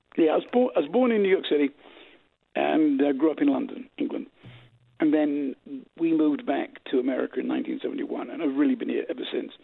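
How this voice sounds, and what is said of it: Accent clearly not New York. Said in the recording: “you have an accent that is clearly not New York”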